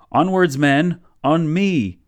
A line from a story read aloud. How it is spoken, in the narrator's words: he yelled